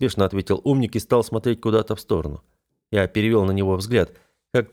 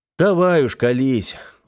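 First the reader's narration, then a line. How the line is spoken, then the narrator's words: Sighing. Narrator (Russian): вздохнул я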